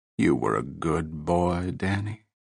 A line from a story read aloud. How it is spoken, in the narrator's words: she murmured, sad smile touching her mouth